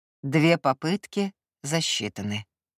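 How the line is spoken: Flat indifferent tone. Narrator (Russian): знакомым безучастным тоном признал он

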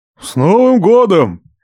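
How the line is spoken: Loud bark. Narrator (Russian): Гаркнул Роберт Ливанович

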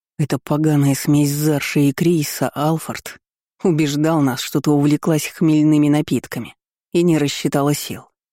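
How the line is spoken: Through gritted teeth. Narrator (Russian): процедил Ним

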